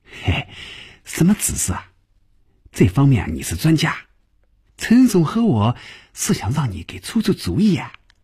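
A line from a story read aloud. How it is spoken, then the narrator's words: Laughing. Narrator (Chinese): 赵平凡也笑了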